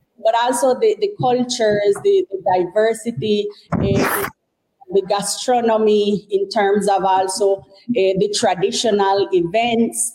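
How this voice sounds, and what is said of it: Caribbean coast Creole English accent. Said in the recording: “You can hear my accent. I am actually from the Caribbean coast”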